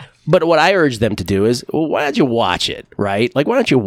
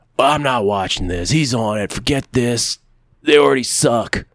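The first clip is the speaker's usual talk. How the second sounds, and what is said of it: Imitates other people's voices. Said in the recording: “my imitation of people on Twitter”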